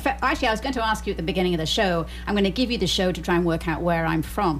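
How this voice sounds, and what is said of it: Mixed southern English accent. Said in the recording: “I have a very mixed up accent ... you're not from the north ... you're southern England. You've been in London for a while.”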